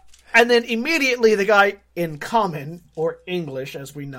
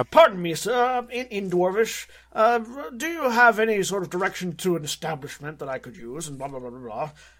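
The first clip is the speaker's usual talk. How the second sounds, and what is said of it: Self-important touristy character voice. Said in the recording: “very self-importantly, very touristy ... That's my Tiberius impersonation.”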